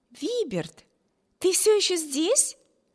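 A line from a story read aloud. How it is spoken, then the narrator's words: Exclamation. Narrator (Russian): воскликнула сестра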